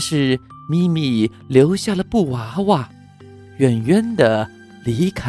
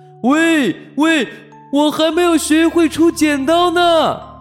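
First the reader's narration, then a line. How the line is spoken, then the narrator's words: Loud shout. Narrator (Chinese): 大猩猩大声的喊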